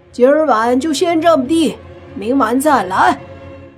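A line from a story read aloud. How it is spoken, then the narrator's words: Shouted reply. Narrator (Chinese): 泥巴却大喊着回复了一句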